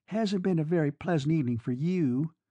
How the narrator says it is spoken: sighed the girl in lilac

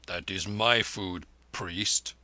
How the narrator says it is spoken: the Jat growled

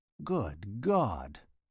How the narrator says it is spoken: murmured Wessex

